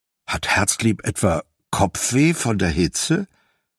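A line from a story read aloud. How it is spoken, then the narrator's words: Plain. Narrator (German): fragte Cedric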